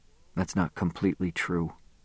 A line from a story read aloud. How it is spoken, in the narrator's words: I said softly